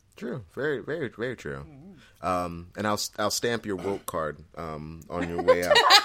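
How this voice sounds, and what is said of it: Usual voice. Nothing is said of it.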